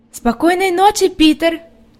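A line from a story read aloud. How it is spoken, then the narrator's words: Calling out. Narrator (Russian): крикнула Хади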